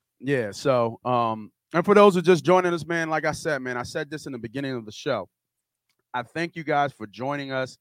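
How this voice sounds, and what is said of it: Scratchy, hoarse voice. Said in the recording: “My voice is kind of scratchy right now. I need somebody with a clear voice outside of me.”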